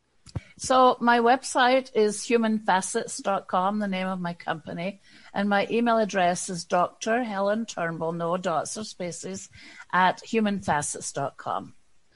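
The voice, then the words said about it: Scottish accent. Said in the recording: “I love the Scottish accent.”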